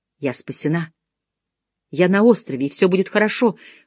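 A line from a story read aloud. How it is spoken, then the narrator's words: Whispering to herself. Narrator (Russian): шептала я себе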